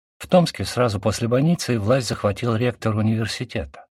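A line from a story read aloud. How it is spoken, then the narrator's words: Plain. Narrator (Russian): сказал бюрократ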